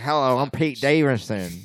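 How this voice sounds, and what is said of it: Imitates another person's voice. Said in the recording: “That was actually a good impression.”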